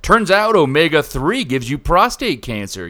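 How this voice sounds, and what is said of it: Mock news anchor voice. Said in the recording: “that's my news voice.”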